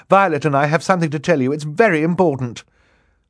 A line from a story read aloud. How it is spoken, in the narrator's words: Klaus said quickly